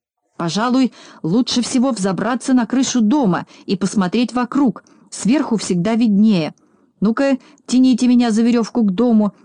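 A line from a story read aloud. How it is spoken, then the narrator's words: Shouting. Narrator (Russian): закричал Знайка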